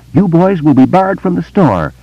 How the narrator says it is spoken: clerk yelled after him

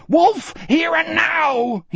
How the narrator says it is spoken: he screamed

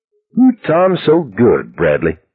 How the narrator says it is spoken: Stacy giggled, not intimidated in the least

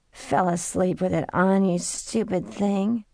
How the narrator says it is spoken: she said in her new croaky voice

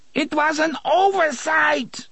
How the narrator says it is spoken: the woman screamed

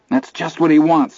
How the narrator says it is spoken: shouted in his ear

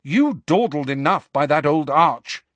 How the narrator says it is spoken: she said crossly

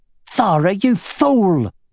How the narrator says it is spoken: exclaimed the matron

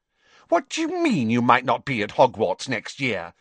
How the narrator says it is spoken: said Pansy indignantly

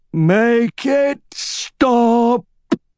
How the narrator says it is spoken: shouted

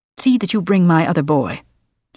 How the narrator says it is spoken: said sharply

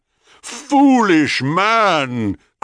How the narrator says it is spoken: cried Thanatos

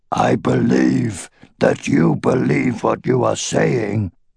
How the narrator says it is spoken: Gleda growled

